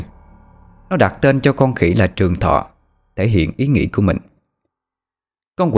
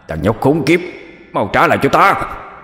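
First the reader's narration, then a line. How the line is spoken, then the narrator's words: Panicked demon howling. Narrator (Vietnamese): Con quỷ hoảng hốt gào lên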